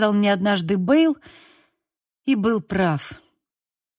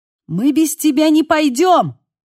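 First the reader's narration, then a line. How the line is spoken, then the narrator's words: Shout over wind. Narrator (Russian): крикнул сквозь ветер Лука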